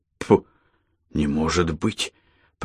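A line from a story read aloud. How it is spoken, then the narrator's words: Muttering. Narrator (Russian): пробормотал он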